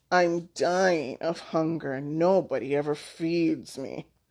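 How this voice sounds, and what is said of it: Whiny cat-like character voice. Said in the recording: “he cried in a meowful voice.”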